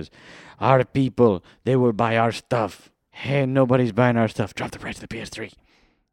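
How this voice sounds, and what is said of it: Bad Russian-sounding put-on accent. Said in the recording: “Why does Sony sound like they're bad Russians? ... Because I can't do a Japanese accent.”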